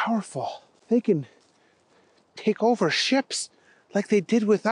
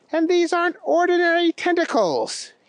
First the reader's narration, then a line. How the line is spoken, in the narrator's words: yelled out